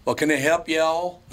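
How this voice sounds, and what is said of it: Southern accent. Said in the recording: “with a Southern accent”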